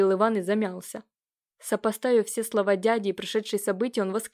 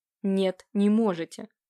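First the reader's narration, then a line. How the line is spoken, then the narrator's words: Sudden angry blurt. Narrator (Russian): выпалил Иван вдруг зло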